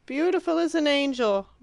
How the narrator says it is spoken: bellowed Perfetta

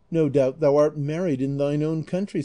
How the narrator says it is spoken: said Zoraida

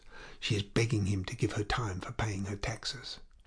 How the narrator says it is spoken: Madame Tuvache whispered in a low voice

